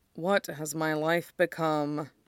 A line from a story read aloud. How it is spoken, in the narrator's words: mutters